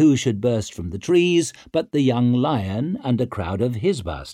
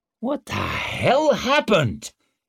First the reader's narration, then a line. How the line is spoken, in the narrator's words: he growled